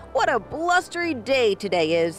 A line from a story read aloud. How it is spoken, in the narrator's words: he chuckled happily